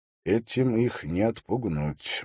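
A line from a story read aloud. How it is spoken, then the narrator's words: Gloomy. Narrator (Russian): мрачно промолвил Холт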